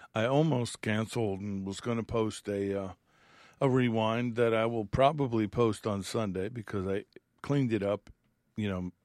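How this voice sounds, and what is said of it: Strained, struggling voice. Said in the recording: “You could probably tell from my voice I'm struggling.”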